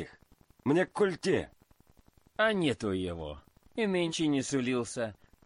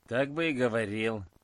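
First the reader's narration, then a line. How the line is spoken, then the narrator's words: Grumbling. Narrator (Russian): проворчал часовой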